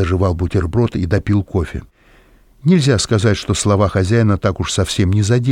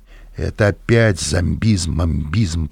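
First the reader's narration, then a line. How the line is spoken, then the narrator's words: Grumbled. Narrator (Russian): проворчал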